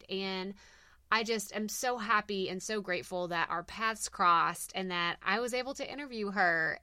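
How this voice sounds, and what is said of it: Speaks with a strong regional accent. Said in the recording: “I have this awful, terrible accent”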